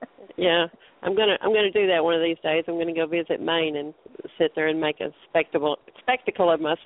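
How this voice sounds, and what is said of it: Usual voice. Nothing is said of it.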